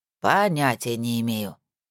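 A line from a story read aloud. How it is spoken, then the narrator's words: Barely audible grumble. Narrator (Russian): пробурчала она едва различимо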